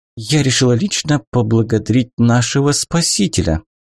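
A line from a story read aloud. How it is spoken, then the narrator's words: Cooing. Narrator (Russian): проворковала Катерина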